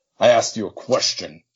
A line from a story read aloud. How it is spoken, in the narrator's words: he growls